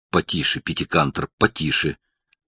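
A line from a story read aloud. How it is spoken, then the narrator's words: Whisper. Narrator (Russian): она прошептала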